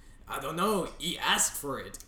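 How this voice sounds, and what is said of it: Ridiculous put-on accent. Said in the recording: “The accent was ridiculous. I don't know what that was.”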